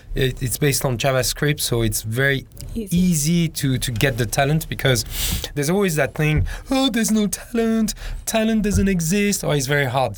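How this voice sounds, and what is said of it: Hong Kong English accent. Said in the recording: “you can tell from my accent, I'm from Hong Kong”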